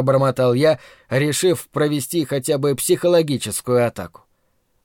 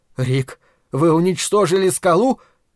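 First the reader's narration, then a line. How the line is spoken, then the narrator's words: Amazed exclamation. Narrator (Russian): изумленно воскликнул Дриан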